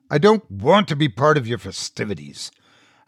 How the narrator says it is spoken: I growled

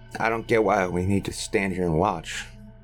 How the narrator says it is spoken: muttered Roy with a scowl

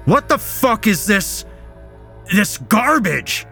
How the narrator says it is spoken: his stepfather shouted

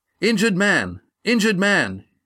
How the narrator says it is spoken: yelled Astrea

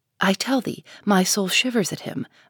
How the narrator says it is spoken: muttered the minister again

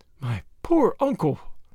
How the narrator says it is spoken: her voice faltered

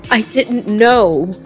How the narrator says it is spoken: Magdalena cried

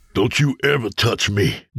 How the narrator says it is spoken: James spat

